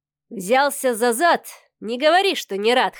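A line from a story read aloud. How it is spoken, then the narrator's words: Chuckling. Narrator (Russian): хохотнул Михаил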